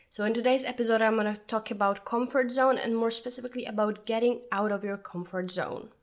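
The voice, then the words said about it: Sick, weird-sounding voice. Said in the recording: “sorry for my voice. I caught a cold and I may sound weird”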